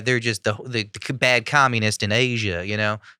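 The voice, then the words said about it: Imitates another person's voice. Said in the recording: “It's a pretty good Matthew McConaughey impression.”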